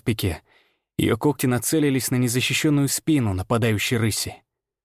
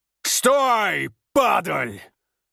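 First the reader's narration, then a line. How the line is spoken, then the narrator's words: Growled. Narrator (Russian): прорычал Ефим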